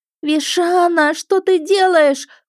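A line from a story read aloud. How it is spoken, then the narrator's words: Wailed. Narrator (Russian): взвыла я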